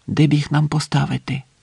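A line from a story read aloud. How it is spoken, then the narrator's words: Whispered. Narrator (Ukrainian): пошепки мовив Роберт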